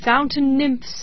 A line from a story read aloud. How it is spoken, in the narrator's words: he cried